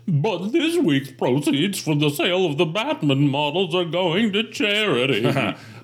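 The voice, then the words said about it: Man's voice as factory boss character. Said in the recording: “I don't think I did the first voice correctly. It's a man ... It's the boss of the foreman of the... ... I'll do his voice. ... Okay, that's a better read”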